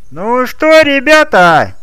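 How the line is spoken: Cheerful shout. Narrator (Russian): весело выкрикнул комментатор

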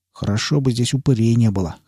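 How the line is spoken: Snort, then breaks off. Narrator (Russian): хмыкнул я и осекся

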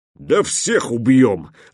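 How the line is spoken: Snarling growl. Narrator (Russian): рыкнул, скались

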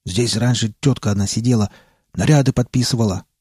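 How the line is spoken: Deep bass voice. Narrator (Russian): пробасил Родин

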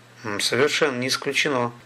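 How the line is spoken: Calm. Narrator (Russian): спокойно сказал Столяров

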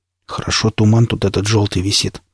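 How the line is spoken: Muttered. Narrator (Russian): пробормотал Никита

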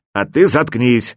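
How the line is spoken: Angry one-eyed man. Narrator (Russian): сердито ответил одноглазый

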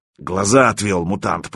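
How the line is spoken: Booming drone. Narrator (Russian): прогудел Круче

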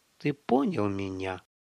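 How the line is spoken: Hissing. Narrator (Russian): Жига зашипел

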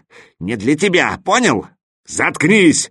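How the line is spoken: Elephant's barking snap. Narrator (Russian): рявкнул на него слон

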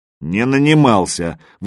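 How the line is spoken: Angry objection. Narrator (Russian): возразил Магадан сердито

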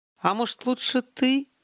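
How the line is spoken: Hesitant. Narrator (Russian): Неуверенно начал Олег

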